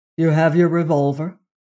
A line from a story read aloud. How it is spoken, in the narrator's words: he said